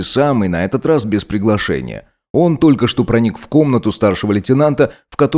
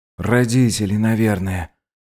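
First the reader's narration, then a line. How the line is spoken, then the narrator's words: Barely audible mumble. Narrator (Russian): пробормотал незваный гость еле слышно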